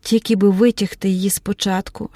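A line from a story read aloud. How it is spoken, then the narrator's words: Whispered. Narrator (Ukrainian): шепотіла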